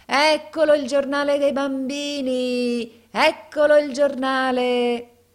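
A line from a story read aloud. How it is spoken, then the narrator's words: Shouting. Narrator (Italian): gridava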